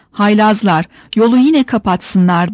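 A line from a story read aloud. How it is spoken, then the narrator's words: Kept shouting. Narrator (Turkish): diye bağırmaya devam ederek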